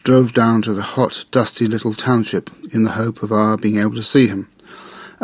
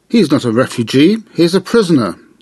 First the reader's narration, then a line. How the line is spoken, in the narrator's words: remarked the Qazini, rather loudly, probably in the hope that some of the Indian officials would hear her